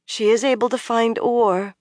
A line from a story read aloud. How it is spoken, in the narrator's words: Min said miserably